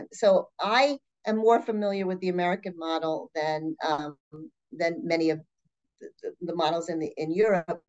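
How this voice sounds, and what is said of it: New York accent. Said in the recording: “I definitely am from New York, and you can hear the accent.”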